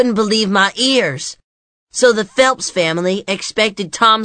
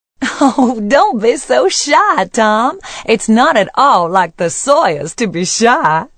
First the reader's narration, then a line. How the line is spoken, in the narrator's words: said, laughing